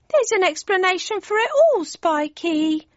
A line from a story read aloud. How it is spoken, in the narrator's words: whined Cindy